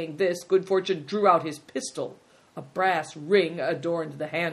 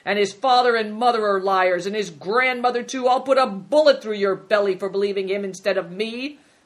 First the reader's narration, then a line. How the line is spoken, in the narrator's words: shouted Good Fortune